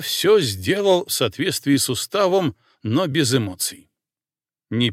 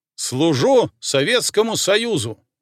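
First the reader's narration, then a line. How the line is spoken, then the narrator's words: Loud crisp declaration. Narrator (Russian): громко отчеканил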